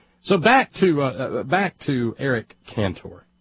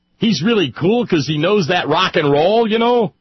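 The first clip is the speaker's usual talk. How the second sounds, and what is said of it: Put-on mocking accent. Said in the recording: “Oh, sorry, wrong accent.”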